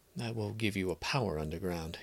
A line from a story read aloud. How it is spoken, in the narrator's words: he muttered almost to himself